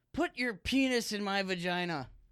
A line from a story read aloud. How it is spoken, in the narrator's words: from across the house, he heard his mother yell